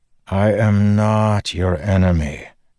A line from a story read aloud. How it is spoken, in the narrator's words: Dalinar sighed